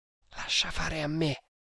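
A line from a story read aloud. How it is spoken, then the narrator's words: Whispered. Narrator (Italian): bisbigliò Tremalnaik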